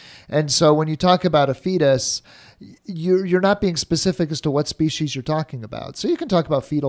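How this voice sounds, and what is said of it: Usual voice. Nothing is said of it.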